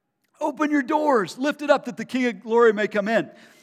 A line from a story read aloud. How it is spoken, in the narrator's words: He's shouting